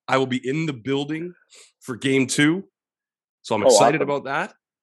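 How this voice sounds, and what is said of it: Sick, unwell-sounding voice. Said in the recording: “I'm sick. I've been sick for 8 days, as you can probably tell by my voice.”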